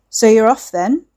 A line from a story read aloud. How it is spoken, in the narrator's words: he called over to her in his gruff, deep voice